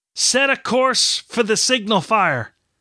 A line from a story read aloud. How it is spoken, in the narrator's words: Kenward yelled, his mind made up